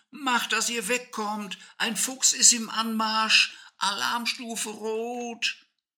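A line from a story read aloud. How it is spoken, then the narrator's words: Shouting with full force. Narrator (German): rief Ecki aus Leibeskräften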